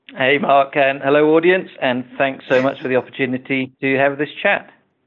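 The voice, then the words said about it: British accent. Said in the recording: “you're not from New York with your accent... I'm from the UK.”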